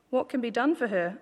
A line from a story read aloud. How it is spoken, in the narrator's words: Elisha asked